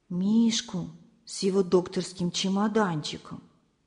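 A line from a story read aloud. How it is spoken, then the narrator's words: Quiet. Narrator (Russian): тихо сказала Лиза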